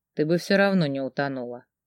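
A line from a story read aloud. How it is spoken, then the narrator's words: Quiet reply. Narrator (Russian): тихо ответил Феликс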